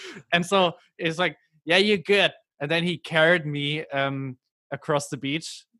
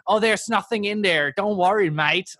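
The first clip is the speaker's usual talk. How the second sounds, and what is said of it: Poor put-on Australian accent. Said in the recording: “I'm not very good at doing the Australian accent.”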